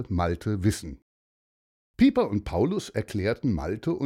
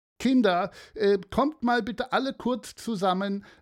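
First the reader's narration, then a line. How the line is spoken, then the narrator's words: Calling out. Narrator (German): rief Christel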